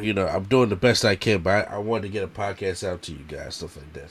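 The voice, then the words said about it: Congested, stuffy voice. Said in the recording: “I am congested. ... I could lose my voice. ... if you hear me sniffing a lot or coughing”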